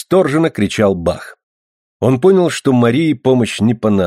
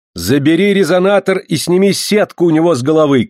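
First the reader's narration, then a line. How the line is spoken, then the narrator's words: Shouting. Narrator (Russian): крикнула Мария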